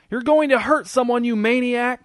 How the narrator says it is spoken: screamed Charlene

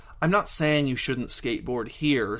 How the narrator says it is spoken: said the man

